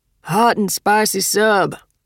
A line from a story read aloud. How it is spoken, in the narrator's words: Roy called out